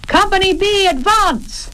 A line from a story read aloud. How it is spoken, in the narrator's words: yelled Georgie, far away